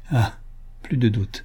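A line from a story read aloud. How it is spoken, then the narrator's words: Murmured, stifling sobs. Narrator (French): murmura-t-il en étouffant ses sanglots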